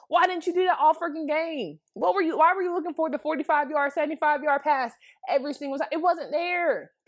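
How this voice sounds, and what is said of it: Angry, frustrated voice. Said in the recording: “that makes me so mad ... hear it in my voice”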